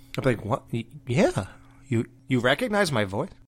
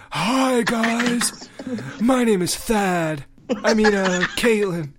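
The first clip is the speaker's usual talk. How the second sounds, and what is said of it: Imitates another person's voice. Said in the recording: “do that Caitlyn Jenner voice”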